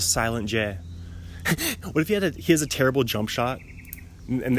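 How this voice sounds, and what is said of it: Usual voice. Nothing is said of it.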